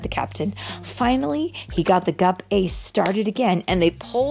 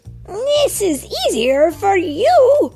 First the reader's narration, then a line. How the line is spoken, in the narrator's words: cried Quasi